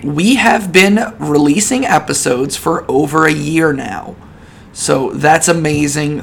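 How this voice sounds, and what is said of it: Hoarse voice from a cold. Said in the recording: “I've got another freaking cold, and I'm losing my voice”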